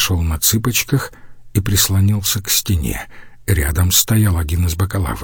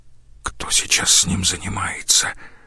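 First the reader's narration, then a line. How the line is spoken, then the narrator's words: Whispered. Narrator (Russian): прошептал Штайнер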